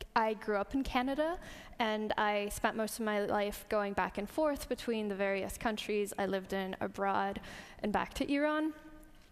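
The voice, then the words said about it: Canadian English accent. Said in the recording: “sounds kind of American ... It's a Canadian accent.”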